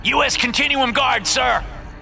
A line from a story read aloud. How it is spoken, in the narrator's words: screams the soldier in front